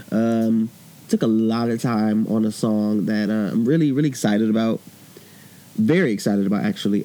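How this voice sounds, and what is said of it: Voice sounds a little sick. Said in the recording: “I sound a little sick.”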